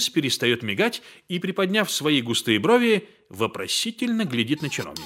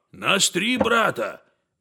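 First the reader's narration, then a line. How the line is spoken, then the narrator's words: Muttering. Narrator (Russian): бормочет Денис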